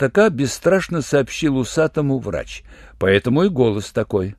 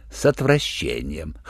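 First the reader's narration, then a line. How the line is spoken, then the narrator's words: Chuckling male voice. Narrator (Russian): хохотнул врач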